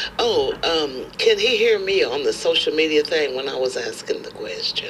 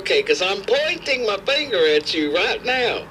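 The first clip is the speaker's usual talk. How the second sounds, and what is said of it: Put-on southern accent. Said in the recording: “that's my southern accent right now”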